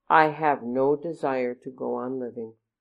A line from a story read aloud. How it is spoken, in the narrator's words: Madi answered calmly